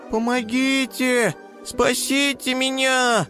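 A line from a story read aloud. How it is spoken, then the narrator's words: Squeaky little hare. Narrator (Russian): пищал зайчонок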